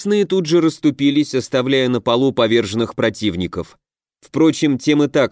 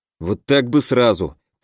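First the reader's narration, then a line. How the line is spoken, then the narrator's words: Grumbled. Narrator (Russian): проворчал я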